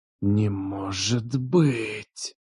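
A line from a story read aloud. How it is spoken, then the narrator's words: Hissing. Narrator (Russian): зашипел один из них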